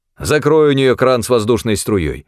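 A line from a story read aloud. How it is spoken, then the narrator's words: Angry command. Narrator (Russian): сердито приказал Керн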